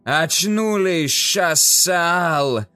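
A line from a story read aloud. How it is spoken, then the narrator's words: Loud yell. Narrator (Russian): заорал Талханза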